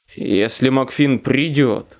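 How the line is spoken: Growled. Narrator (Russian): прорычал Дентон

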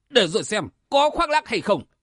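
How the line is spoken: Harsh snapping. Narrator (Vietnamese): Đạo nhân mắt lồi gắt giọng

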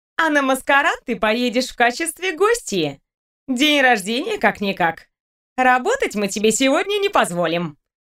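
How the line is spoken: Cheerful addition. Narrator (Russian): весело добавила Лиска

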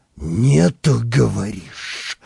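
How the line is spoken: Hissing. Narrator (Russian): прошипел

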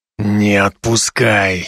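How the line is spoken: Hoarse rasp into ear. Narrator (Russian): Прохрипел мне на ухо Дуэргар

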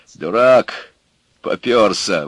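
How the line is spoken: Grumbling. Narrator (Russian): ворчал он

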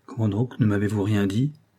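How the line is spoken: Harsh reproach. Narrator (French): fit durement monsieur de Breul

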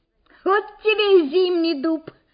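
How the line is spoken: Giggle from the back. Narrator (Russian): хихикнул кто-то на задней парте

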